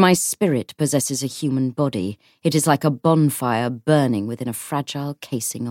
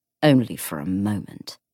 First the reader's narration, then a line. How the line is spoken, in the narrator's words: Belial said bitterly